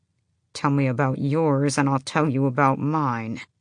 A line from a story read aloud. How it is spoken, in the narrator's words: he said through gritted teeth